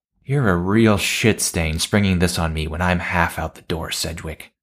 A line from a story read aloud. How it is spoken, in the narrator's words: sigh